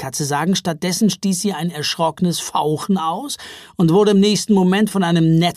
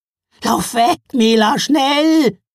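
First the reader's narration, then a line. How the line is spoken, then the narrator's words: Calling out. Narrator (German): rief sie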